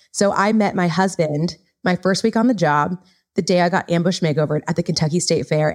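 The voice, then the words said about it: Californian accent. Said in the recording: “you've got this California accent”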